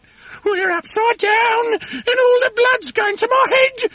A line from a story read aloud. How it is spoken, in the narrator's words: screamed Mrs